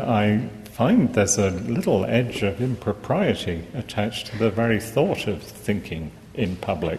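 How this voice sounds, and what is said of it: English accent. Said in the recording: “as you hear from my accent, English”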